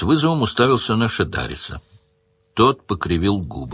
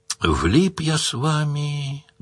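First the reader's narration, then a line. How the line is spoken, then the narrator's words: Sad. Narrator (Russian): грустно сказал Паколет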